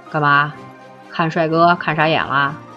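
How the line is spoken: Teasing, grinning. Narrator (Chinese): 米阳笑嘻嘻地说

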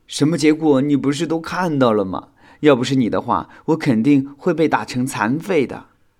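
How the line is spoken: Suppressed laughter, questioning. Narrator (Chinese): 小新强忍住内心的笑意反问

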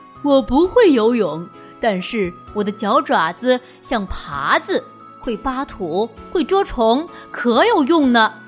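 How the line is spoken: Cheerful rooster, laughing. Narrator (Chinese): 大公鸡……笑着说

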